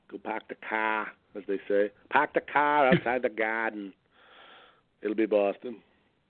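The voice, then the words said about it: Put-on Boston accent. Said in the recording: “doing a Boston impersonation”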